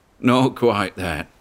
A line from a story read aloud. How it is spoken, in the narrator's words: said the old shellback, and laughed